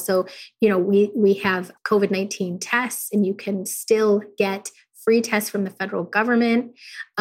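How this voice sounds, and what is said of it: Voice sounds like getting over cold. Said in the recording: “you can probably hear from my voice that I am getting over a cold”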